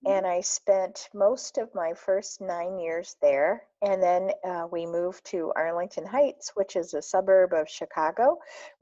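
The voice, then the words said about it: Chicago twang, Midwestern accent. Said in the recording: “you may hear a Chicago twang in my voice, in the timbre”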